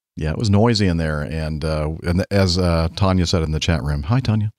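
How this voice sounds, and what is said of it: Slightly hoarse voice. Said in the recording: “my voice was a little hoarse? ... Just a little. ... it took its toll on my voice”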